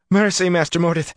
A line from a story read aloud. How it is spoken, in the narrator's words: she panted